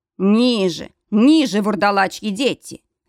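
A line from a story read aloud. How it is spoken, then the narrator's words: Barked order. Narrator (Russian): рявкнул Грег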